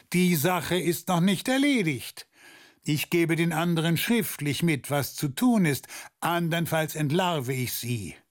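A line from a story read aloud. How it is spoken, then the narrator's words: Calling back from afar. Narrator (German): rief er noch vom Tor aus zurück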